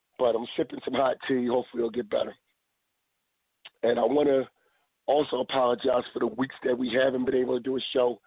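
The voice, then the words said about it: Very hoarse voice. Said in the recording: “I want to apologize. One, for my voice. I'm very hoarse for some reason. ... And I've been hoarse ever since Friday night.”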